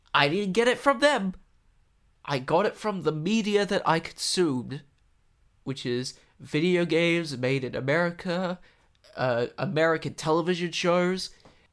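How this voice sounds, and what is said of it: American accent. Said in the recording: “who speaks American there at home? ... the American accent ... that I switch between it for some reason when I talk”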